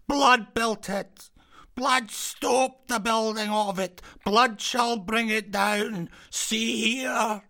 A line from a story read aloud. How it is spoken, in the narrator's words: cried again